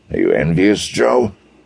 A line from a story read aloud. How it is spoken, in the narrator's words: Desher snorted